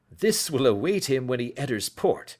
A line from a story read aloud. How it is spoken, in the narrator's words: said he, chuckling